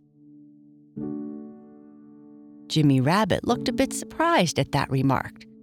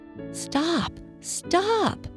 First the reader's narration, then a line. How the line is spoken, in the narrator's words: cried Daddy Longlegs